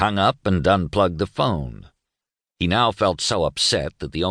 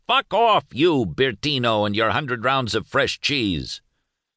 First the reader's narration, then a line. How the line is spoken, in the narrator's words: roaring like a lion, yelling like a madman, said